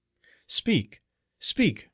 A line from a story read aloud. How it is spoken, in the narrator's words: cried Flora and the monk at the same time